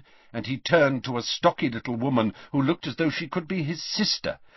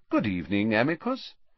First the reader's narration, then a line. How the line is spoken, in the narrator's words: said Dumbledore calmly, as though welcoming the man to a tea party